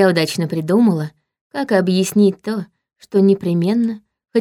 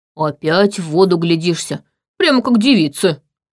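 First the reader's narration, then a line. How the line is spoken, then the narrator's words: Loud laughter near ear. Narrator (Russian): Захохотал у меня над ухом Марон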